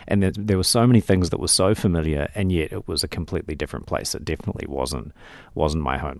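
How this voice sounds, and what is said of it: New Zealand accent. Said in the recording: “everyone that I met in England knew that I was a New Zealander, not an Australian. Whereas in America, of course, many people thought I was British or Scottish or Irish or something from my accent.”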